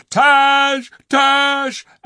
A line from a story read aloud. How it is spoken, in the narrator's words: The Calorman soldiers outside screamed